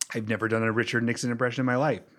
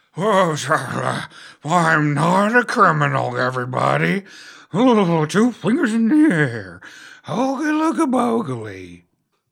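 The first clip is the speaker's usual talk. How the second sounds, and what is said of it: Imitates another person's voice. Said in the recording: “Do you have a good Richard Nixon impersonation?”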